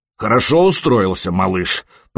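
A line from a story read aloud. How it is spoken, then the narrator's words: Deep bass voice. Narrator (Russian): пробасил Харальд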